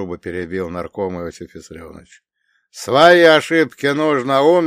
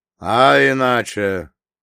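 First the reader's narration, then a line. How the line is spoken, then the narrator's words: Chief's hoarse laugh. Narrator (Russian): вождь хрипло рассмеялся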